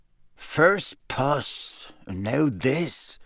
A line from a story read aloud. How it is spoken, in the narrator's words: muttered Seamus